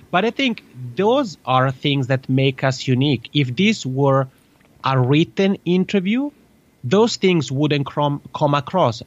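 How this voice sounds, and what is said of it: Italian accent in English. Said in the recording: “non-English natives ... I have this crazy Italian macaroni accent.”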